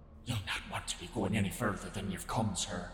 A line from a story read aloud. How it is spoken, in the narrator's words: she whispered in a harried manner